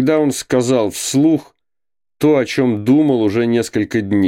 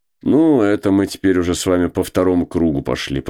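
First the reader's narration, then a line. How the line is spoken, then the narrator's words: Grumbling. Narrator (Russian): проворчал Кузьма Иванович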